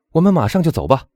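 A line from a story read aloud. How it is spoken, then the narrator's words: Loud hurried speech. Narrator (Chinese): 唐泰斯一面大声说 急忙 说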